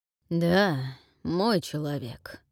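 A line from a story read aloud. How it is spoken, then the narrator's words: Indistinct mumble. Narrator (Russian): невнятно пробормотал воевода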